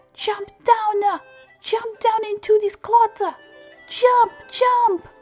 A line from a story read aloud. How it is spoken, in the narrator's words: They all shouted up at him